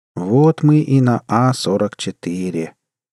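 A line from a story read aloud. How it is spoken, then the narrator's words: Sepulchral voice. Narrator (Russian): каким-то замогильным голосом произнес Джимми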